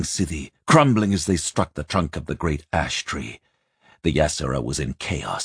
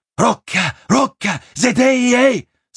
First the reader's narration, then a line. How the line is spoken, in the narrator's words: Simon heard Jiriki shouting somewhere nearby